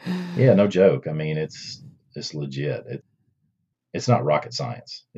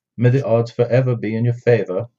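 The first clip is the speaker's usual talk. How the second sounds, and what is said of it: Put-on English accent. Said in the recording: “Can I say that in an English accent?”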